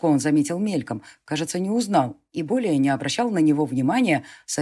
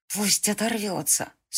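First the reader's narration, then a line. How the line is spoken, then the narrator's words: Through gritted teeth. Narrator (Russian): снова сквозь зубы сказала Илия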